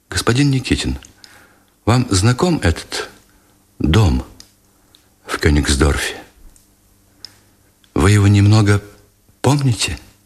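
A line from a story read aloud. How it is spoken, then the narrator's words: Timid, quiet question. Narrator (Russian): все так же робко, спросила негромко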